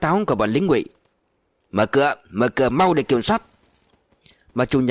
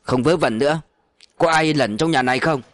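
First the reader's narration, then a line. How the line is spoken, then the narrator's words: Shout. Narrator (Vietnamese): Lại có tiếng quát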